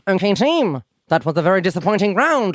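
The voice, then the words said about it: Imitates another person's voice. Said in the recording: “my Cornelia Francis impression ... Cornelia Francis in The Weakest Link”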